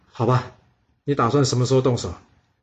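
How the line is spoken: Sighing. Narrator (Chinese): 幼宰谷叹了口气说

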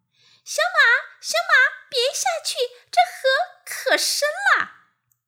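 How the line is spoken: Calling out. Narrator (Chinese): 一个声音喊

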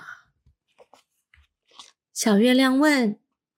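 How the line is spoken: Hoarse question. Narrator (Chinese): 她用沙哑的声音问道

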